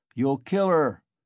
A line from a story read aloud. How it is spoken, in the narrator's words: shouted the third